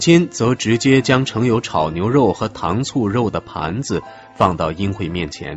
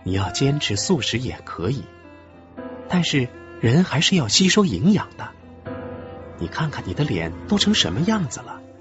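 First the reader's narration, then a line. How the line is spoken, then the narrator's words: Gentle scolding. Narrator (Chinese): 任慧也温柔的责备着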